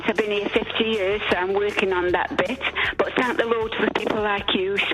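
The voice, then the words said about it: Italian accent. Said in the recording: “Don't go by my accent. ... I reckon that Italian accent will go away in time.”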